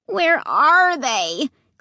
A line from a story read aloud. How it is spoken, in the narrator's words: Clay asked, whining